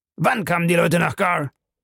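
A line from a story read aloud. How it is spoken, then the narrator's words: Sharp question. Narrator (German): fragte Bellamy scharf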